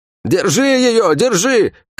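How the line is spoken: Shouted. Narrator (Russian): крикнул один из них

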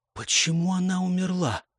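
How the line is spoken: Hushed whispered question. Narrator (Russian): спросила Клэр, невольно понизив голос до шепота в тихой, прохладной, тускло освещенной комнате

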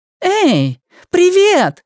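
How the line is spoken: Shouted greeting. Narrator (Russian): закричала Джули

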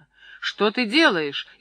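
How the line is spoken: Frightened shout. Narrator (Russian): испуганно закричал Митька

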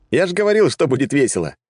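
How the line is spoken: Loud laughter. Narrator (Russian): расхохотался я

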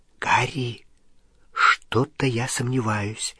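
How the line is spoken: Whispered. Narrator (Russian): зашептала Гермиона

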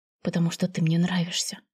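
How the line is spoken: Quiet voice. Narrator (Russian): негромко произнес

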